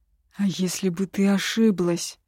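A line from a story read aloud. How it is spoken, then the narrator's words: Breathed through clenched teeth. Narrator (Russian): Сквозь сжатые зубы выдохнул Хитар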